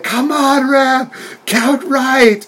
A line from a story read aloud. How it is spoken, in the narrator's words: Penelope she's just yelling